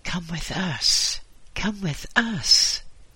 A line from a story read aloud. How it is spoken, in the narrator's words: the voices whispered to Hoagie